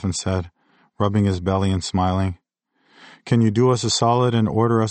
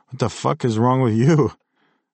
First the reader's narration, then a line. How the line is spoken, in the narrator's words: I laughed and coughed on smoke, the pressure burning my throat and chest